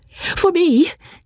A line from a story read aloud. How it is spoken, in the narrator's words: cried Marianne